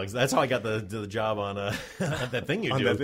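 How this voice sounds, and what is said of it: Usual voice. Nothing is said of it.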